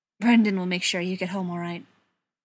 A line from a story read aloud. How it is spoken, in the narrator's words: John said, his voice rough